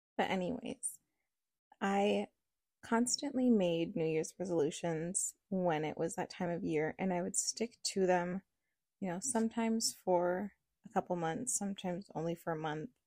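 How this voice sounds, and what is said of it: Rough, cold-affected voice. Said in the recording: “sorry for my voice. ... I'm kind of recovering from a little cold”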